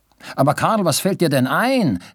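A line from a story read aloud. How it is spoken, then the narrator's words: Worried call. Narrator (German): rief Robinson und stand schon vor lauter Sorge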